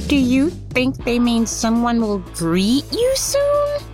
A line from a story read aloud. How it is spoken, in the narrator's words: Twilo asked nervously